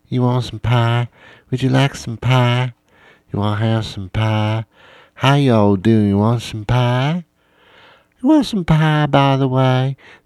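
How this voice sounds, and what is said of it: Southern girl accent imitation. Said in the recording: “these Southern accents”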